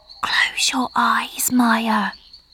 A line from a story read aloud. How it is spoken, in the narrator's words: Marcia whispered